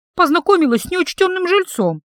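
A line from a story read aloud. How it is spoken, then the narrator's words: Confused babbling. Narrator (Russian): залепетала я растерянно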